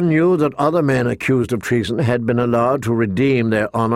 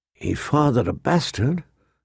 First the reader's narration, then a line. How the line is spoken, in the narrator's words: a small voice whispered inside him